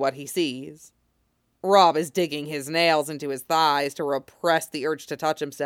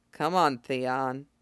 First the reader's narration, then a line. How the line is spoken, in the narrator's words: he mutters